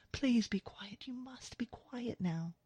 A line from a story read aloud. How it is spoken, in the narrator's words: she whispers